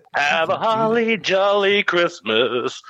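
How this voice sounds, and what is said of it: Bad Elvis-style singing impression. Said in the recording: “That sounded more like a bad Elvis impersonation.”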